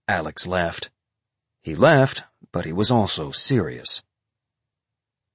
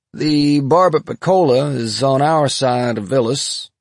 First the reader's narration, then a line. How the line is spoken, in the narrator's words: Alex said, still in that same lazy, sleepy voice